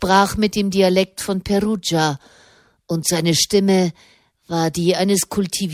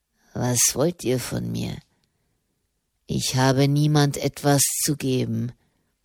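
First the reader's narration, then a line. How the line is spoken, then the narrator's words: Murmuring. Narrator (German): murmelte er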